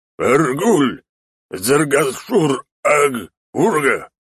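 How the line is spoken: Growled. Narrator (Russian): прорычал шаман

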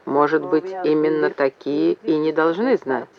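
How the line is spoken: Quiet reply. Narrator (Russian): все так же тихо ответил Вепрь

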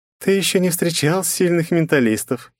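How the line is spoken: Giggling. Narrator (Russian): хихикнула бездна

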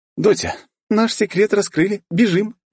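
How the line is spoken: Merry laughter. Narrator (Russian): весело смеясь

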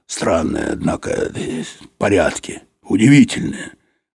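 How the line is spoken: Low muttering. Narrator (Russian): Юрковский вполголоса приговаривал

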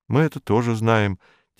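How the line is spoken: Quiet. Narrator (Russian): тихонько сказал Роман

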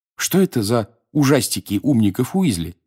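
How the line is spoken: Plain. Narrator (Russian): спросил Гарри

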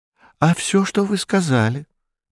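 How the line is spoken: Cheerful reply. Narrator (Russian): весело ответил Нунан

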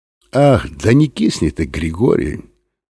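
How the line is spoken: Suffering voice. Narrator (Russian): страдающим голосом сказал он

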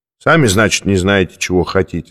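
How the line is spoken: Plain. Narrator (Russian): сказал круглоголовый

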